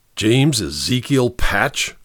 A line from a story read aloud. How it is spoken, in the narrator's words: growled the great man